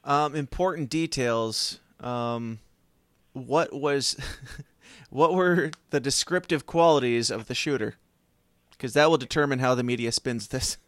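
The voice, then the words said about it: Put-on radio announcer voice. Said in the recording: “you do not sound like ... I'm using my radio voice”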